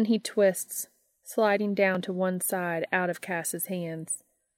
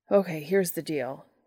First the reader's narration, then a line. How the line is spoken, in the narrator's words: Dean pants